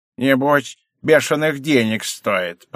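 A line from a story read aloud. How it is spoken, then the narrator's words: Grumbling. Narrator (Russian): проворчала моя хозяйка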